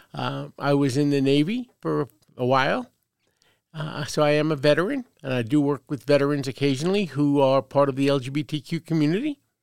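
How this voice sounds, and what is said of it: Slight Brooklyn New York accent. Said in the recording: “Born and raised in Brooklyn, New York. So if you detect a slight accent, that's where it's from.”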